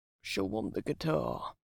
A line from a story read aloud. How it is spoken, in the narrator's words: he muttered